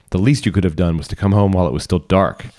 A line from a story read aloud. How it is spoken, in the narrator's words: sharply suggested